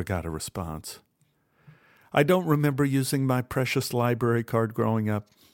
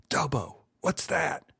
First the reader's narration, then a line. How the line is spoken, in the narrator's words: he whispered urgently